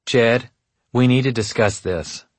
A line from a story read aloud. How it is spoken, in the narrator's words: she said, her voice controlled and curt